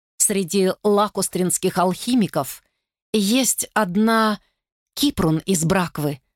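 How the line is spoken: Plain. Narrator (Russian): сказал он

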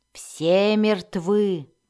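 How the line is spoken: Angry repetition. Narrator (Russian): злобно повторил он

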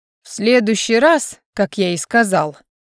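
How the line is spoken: Deadly calm tone. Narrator (Russian): продолжил между тем Ледяной все тем же убийственно спокойным тоном

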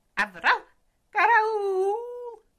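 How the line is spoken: Dog howling. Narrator (Russian): взвыл пес

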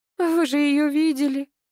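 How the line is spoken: Whimpering. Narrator (Russian): захныкала Вера

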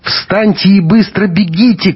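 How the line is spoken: Shout. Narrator (Russian): крикнула Маруся Бунину

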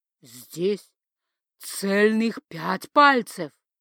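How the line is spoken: Solemn proclamation. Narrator (Russian): торжественно провозгласил он

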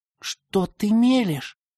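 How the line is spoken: Hissing. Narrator (Russian): прошипел Паша

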